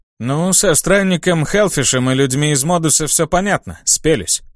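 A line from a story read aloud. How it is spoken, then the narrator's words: Plain. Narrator (Russian): сказал Лиам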